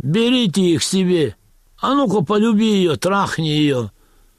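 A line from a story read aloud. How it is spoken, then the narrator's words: Drunken laughing shouts. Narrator (Russian): Пьяные немцы хохотали … и кричали заключенным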